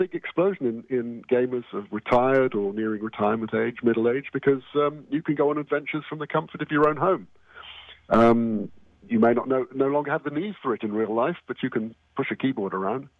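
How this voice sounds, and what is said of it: English accent. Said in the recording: “I'm originally from England, the west of England. ... I just kept the accent.”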